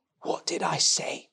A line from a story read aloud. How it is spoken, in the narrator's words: he muttered